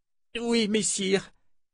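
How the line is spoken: Moaned. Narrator (French): gémit l'Andérienne

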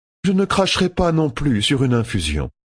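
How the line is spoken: Said with a sigh. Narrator (French): dit Pevara avec un soupir

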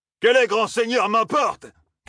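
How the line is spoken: Shouted. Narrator (French): cria

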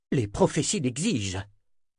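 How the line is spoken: Exclamation. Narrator (French): s'écria Anna

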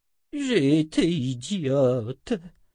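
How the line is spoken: Moaned. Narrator (French): gémit Adi

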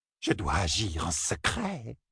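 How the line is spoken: Small man's hissing whisper. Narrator (French): souffla le petit homme, sifflant presque comme un serpent

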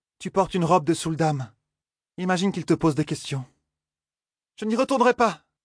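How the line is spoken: Exclaimed. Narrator (French): s'écria Egwen

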